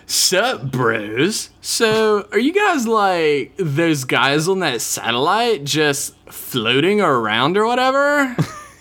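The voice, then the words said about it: Surfer-dude character voice. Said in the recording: “Surfer Voice ... He's more like a valley girl.”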